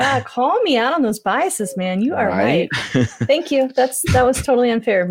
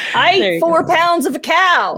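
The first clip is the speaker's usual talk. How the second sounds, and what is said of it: Put-on Southern redneck accent. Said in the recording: “Why did you turn into a redneck? ... it's a Southern accent that comes out”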